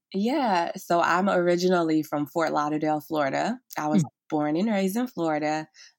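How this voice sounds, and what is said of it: Slight Southern US accent. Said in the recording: “You probably can hear a little bit of my Southern accent. It'll come out more”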